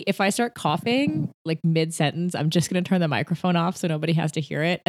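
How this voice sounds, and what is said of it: Sick, congested-sounding voice. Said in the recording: “I'm sick ... you can hear it in my voice”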